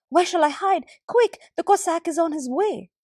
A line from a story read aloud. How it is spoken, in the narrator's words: said the woman, gasping